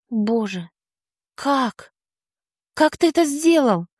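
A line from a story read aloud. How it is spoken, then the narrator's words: Breathless exhale. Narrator (Russian): Наконец выдохнула я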